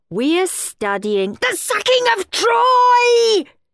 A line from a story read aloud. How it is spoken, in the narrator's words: shrieked Henry